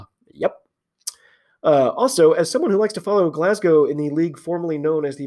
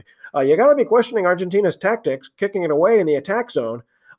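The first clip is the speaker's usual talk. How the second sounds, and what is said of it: Put-on accent imitating a commentator. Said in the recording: “I don't think this was his accent, but I'm doing it anyway.”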